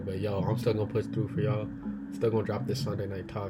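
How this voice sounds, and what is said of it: Sick-sounding voice. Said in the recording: “if I sound sick, it is because I'm sick”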